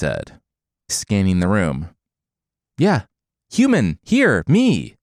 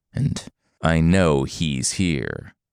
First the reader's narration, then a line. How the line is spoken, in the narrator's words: Forest Monster growled